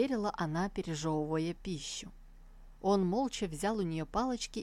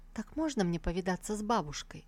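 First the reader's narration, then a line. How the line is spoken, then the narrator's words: Insinuating question. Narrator (Russian): Сусу вкрадчиво спросила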